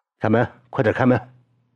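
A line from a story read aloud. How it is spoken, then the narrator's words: Harsh shout. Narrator (Chinese): 厉声叫道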